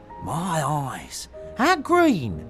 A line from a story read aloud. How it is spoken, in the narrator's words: exclaimed the young gentleman